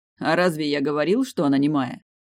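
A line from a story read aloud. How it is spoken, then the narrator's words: Amused grunt. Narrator (Russian): Глен хмыкнул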